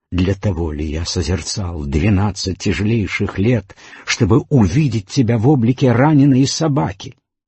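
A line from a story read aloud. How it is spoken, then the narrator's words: Astonished indignant exclamation. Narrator (Russian): Асанга в изумлении возмущенно воскликнул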